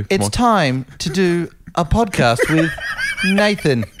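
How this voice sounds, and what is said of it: Mock voiceover read, oddly placed pauses. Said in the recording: “your impersonation of me. How do I speak when I do my full voiceover thing? ... put the pauses in all sorts of weird places ... It's your signature read.”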